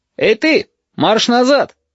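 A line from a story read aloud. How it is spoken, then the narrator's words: Shouting. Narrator (Russian): закричал Кофель-Найгель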